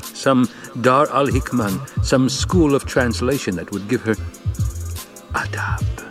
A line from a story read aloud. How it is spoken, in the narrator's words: she whispered